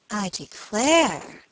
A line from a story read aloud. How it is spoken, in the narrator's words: she exclaimed